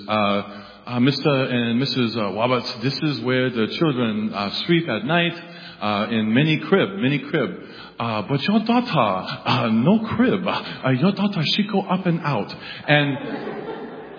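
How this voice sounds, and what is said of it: Imitated Hong Kong accent. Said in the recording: “I'm going to do a Hong Kong accent”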